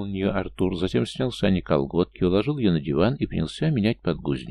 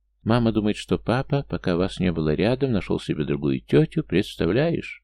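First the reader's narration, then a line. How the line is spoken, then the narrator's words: Cartoonish voice. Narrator (Russian): мультяшного голоса Артура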